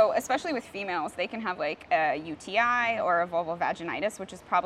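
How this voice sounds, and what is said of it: Usual voice. Nothing is said of it.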